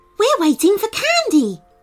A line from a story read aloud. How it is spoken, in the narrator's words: announced the bunny excitedly